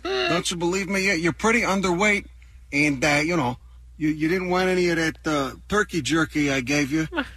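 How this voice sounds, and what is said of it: Chicago accent. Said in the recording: “the accent is still a little mysterious ... he's getting more Chicago by the second”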